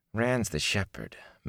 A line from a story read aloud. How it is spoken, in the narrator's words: Matt grumbled